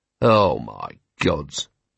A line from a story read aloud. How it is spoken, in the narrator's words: murmured Vimes